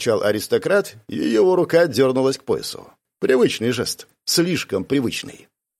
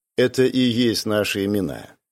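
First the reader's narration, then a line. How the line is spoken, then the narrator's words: Calm retort. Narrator (Russian): спокойно парировал Райан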